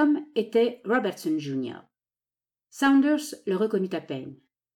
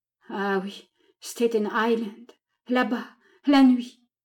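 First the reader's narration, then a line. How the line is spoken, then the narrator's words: Stammering. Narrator (French): bégaya Saunders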